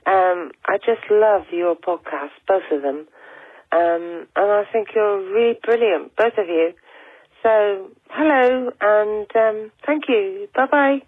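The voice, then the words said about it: Devon English accent. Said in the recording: “I'm from Plymouth and Devon in the UK, so you might detect a Devon accent here”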